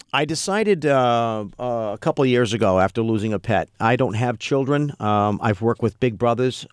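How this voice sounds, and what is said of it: Usual voice. Nothing is said of it.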